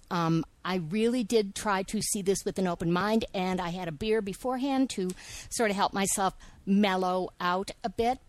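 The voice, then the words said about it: Angry, agitated speaking voice. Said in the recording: “I'm really, really angry, which you can probably hear in my voice.”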